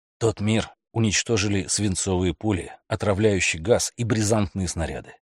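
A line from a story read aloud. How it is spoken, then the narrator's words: Plain. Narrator (Russian): ответил Стентон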